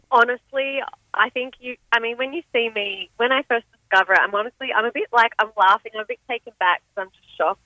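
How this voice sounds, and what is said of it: Australian accent, slight American twang. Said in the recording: “you sound Australian ... you have like an American twang ... you think I sound fully Australian?”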